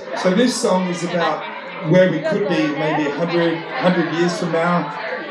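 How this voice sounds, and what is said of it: Australian English accent, not American. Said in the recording (Chinese): “这个歌手是哪国人？ ... Australia， ... 我就觉得他口音绝对不是美国人。”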